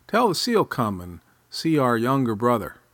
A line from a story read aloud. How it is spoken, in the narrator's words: He shouted